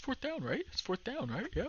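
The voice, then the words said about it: Imitates another person's voice. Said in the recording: “Brady impersonation”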